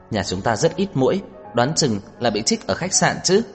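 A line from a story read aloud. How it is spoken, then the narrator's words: Laughing. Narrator (Vietnamese): Nhã Tuệ bật cười nói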